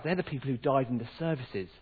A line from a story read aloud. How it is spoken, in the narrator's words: his dad whispered back